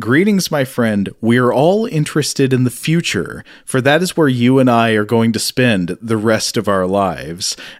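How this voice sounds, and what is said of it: Booming stentorian imitation of another's voice. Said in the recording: “the Criswell voice. It's famously, the adjective I think is stentorian”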